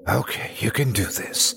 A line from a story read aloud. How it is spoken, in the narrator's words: I whispered to myself